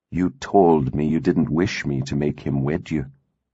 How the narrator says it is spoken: he said softly

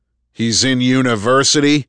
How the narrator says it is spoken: Andrew thundered

